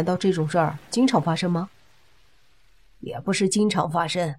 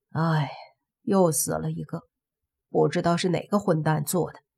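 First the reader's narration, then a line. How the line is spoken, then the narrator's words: Sighing. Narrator (Chinese): 司机叹了口气，说道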